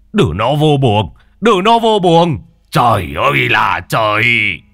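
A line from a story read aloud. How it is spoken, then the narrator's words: Grandfather shouting. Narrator (Vietnamese): ông ngoại quát lên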